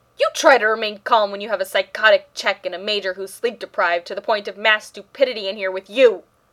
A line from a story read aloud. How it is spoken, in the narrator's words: Rodney bellowed back